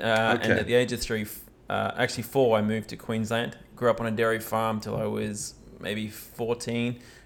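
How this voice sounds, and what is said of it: Australian accent. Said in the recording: “So you've mostly spent your life in Australia, hence the accent.”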